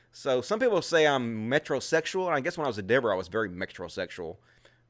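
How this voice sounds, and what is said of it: Rural redneck-sounding American accent. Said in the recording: “guess it's because of my accent ... I may sound like a redneck sometime ... I guess just because of my accent.”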